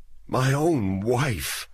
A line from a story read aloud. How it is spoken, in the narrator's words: said in a trembling voice